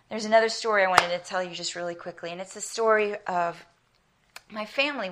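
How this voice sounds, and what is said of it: American accent. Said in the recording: “I have an American accent ... I always sound like a bit of a hick”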